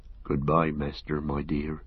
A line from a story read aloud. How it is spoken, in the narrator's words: he murmured